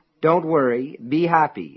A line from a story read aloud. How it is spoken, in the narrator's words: it said